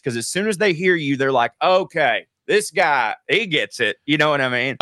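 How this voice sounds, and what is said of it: Southern US accent. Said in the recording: “the dumbest accent when you hear a Southerner talk... if you hear a dude talking like me... When someone hears my accent”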